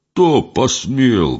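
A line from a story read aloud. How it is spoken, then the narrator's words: Menacing roar. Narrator (Russian): грозно взревел горох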